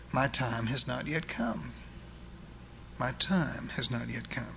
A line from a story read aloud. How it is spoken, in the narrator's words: And quietly in love, your God answers